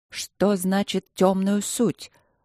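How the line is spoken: Slow, almost sluggish. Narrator (Russian): Аня говорила медленно, почти заторможенно

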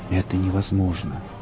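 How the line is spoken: Whisper. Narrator (Russian): прошептал Борг

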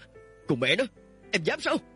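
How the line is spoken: Loud yell. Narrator (Vietnamese): hét lớn

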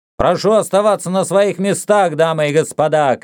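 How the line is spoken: Shouting to audience. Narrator (Russian): крикнул Сокс публике

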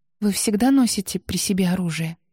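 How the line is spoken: Quiet question. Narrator (Russian): тихо поинтересовалась Анна

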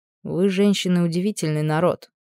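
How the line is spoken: Quiet speech. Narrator (Russian): тихо произнес

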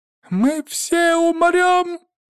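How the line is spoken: Thin high-pitched yell. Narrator (Russian): Тоненько провопил Жорка

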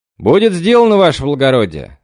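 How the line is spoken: Joyful shout. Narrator (Russian): с радостью выкрикнул мичман

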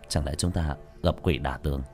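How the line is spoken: Muttering. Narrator (Vietnamese): Tiểu thất lẩm bẩm

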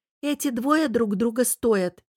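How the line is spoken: Giggling near-whisper. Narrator (Russian): хихикнула Лара, понижая голос почти до шепота

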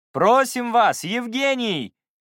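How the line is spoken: Shouted from the audience. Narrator (Russian): крикнул кто-то из зрителей

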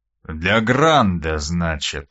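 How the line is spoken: Drawling. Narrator (Russian): протянул он

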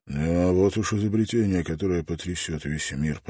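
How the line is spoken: Mumbling. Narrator (Russian): пробормотал он

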